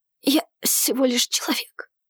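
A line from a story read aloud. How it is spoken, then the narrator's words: Weakening, breathy voice. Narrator (Russian): слабеющим голосом выдохнул Арсений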